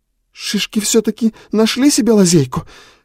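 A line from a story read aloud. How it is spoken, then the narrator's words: Angry exclamation, abruptly cut off. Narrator (Russian): гневно воскликнула она и осеклась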